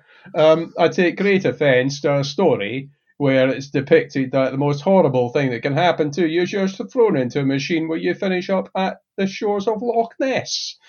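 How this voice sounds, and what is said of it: Exaggerated Scottish accent. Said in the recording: “as a Scot ... I'm going to just step up the Scottish accent here”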